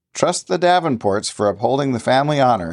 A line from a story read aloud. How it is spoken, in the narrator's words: laughed easily